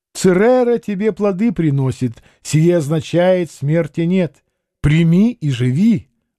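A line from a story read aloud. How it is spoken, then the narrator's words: Exclaiming. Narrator (Russian): воскликнул Лефорт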